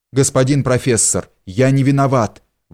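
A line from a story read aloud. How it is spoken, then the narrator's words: Exclaiming. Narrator (Russian): воскликнул Ганс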